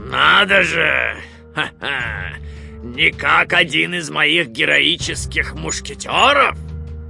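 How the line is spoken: Hoarse laughter. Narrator (Russian): хрипло расхохотался он

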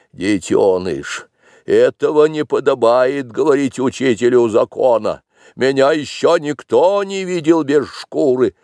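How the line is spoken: Stern. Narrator (Russian): Балу сказал строго

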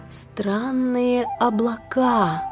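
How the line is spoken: Thoughtful drawl. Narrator (Russian): задумчиво протянула она

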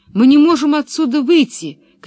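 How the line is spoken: Older boy shouting. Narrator (Russian): крикнул старший мальчик

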